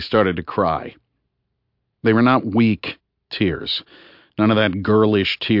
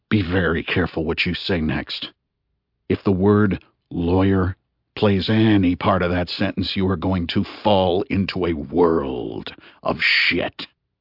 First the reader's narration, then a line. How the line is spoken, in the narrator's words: In the coldest voice I own, I said